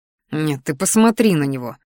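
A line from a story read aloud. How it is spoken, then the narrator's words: Inner snort. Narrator (Russian): фыркнул мысленно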